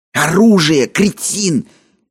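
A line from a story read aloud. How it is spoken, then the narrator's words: Hissed in pain. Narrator (Russian): прошипел Кадберт, и в его голосе явственно слышалась боль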